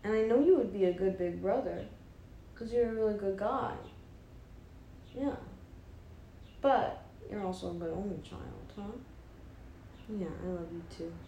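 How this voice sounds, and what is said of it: Cooing baby voice. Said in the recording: “My baby voice.”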